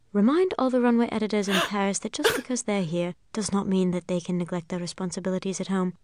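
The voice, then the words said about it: Impression of Miranda Priestly. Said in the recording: “Here's one clip so you can hear her do Miranda.”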